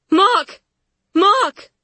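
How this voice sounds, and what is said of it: Shouting. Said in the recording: “The word explodes from me bullet fast. ... I keep shouting,”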